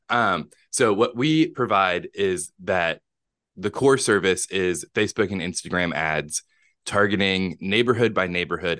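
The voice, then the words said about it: Congested voice from a cold. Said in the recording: “I've got a little bit of a cold here, so I keep having weird things happening in my sinuses”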